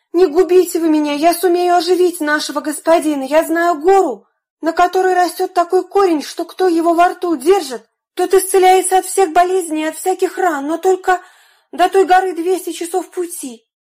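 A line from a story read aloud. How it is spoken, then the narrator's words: Desperate pleading. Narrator (Russian): он взмолился о пощаде и стал просить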